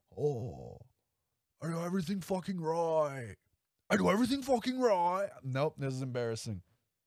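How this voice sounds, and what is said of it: Weak Nicolas Cage impression. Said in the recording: “I can't do his voice, man. It's embarrassing. I really should have got the Nick Cage voice down”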